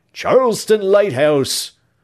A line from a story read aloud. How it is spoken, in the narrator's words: he cried